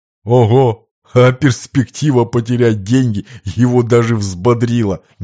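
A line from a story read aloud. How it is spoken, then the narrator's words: Laughing outburst. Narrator (Russian): Не выдержав, рассмеялся Лакранука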